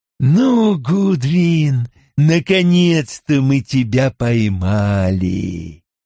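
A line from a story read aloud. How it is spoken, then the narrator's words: Sickly sweet, smug voice. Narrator (Russian): Лейтенант сладким таким приторным голосом довольно констатировал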